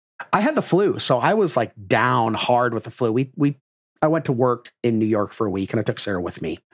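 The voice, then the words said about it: Raspy, slightly hoarse voice. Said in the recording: “sounds a little raspy this week”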